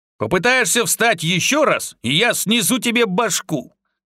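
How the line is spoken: Shouted, spitting sand. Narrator (Russian): крикнул Артём, плюясь песком, которого набрал полный рот

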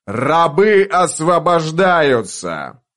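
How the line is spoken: Loud declaration. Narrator (Russian): громко произнес он

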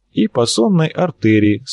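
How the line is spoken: Calm comment. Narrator (Russian): спокойно прокомментировал Арцулов

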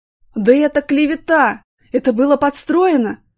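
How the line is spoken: Loud yell. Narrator (Russian): завопил Артем

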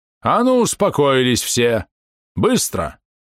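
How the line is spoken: Booming, overpowering voice. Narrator (Russian): придавило зычным голосом отца Никодима

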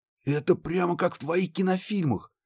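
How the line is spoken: Excited breathless exclamation. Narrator (Russian): восторженно выдохнул Муха

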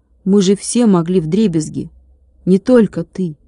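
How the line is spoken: Quiet. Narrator (Russian): тихо сказал Владик

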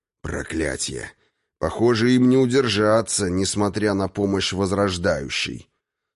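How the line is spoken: Through gritted teeth, man. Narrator (Russian): Сквозь зубы произнес мужчина

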